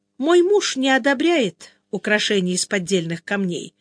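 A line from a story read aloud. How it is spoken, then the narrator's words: Plain. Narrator (Russian): ответила Белилия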